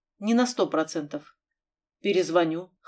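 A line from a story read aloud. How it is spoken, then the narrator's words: Hoarse croak. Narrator (Russian): хрипло каркнул Крюк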